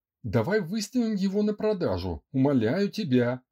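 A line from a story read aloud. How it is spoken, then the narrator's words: Indignant demand. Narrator (Russian): возмущенно потребовал Андрей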